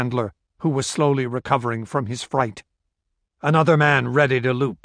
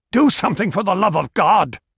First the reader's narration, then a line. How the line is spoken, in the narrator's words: cried the handler